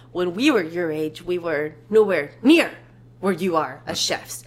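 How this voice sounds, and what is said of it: Impression of Gordon, matched intonation. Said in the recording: “That was a pretty good impression. Thank you. I think you really hit the intonation.”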